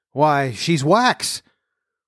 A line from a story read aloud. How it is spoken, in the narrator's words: a middle-aged gentleman now exclaimed